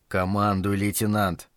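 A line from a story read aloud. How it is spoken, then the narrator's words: Quiet speech. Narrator (Russian): тихо проговорил Билл Райтон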